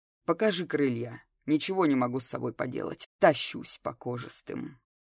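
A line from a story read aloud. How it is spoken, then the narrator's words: Rebellious deep voice. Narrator (Russian): мятежно пробасила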